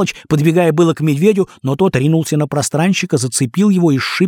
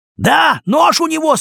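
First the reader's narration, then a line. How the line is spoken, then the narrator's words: Shouted. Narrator (Russian): снова крикнул розовый голый король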